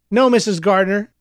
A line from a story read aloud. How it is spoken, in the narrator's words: the nurse replied